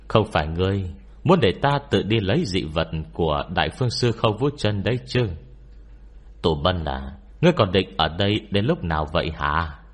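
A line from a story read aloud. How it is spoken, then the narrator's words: Mocking, smiling monk. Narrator (Vietnamese): Tên hòa thượng này mỉm cười giễu cợt rồi nói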